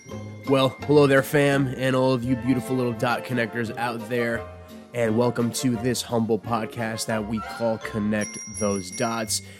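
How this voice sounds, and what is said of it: Nasal, sniffly voice from a cold. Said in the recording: “I come to you a little bit under the weather on this week's episode. You can hear it in my voice. It's a little nasally, it's a little sniffly”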